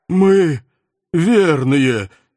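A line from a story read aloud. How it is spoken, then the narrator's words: Hoarse strained. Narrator (Russian): сипло выдавил кто-то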